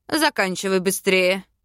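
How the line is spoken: Growled then choked hiss. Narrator (Russian): Рыкнул он и сдавленно зашипел

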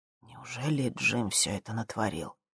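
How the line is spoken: Quiet question. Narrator (Russian): Боб спросил тихо

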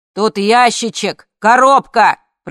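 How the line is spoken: Shouted to another room. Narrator (Russian): прокричал муж в сторону гостиной

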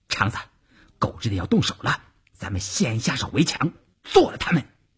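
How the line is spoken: Low, urgent voice. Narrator (Chinese): 邵月低声对前面的晋中人说

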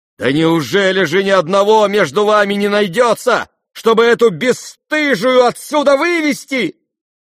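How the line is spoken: Sudden cry, trembling anger. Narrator (Russian): вскрикнула вдруг вся трепеща от гнева Варя

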